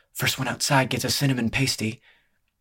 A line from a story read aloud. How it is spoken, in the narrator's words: Lee bent down and whispered in Sim's ear